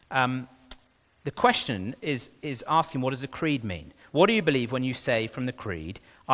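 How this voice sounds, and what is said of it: Non-native English accent. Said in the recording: “with my funny accent, it might be hard to understand it”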